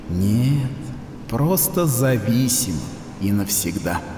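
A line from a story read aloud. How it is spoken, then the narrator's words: Sad conclusion. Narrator (Russian): печально заключила Эвриала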